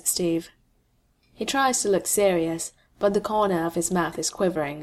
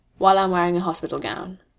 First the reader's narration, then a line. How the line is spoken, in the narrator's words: says Bucky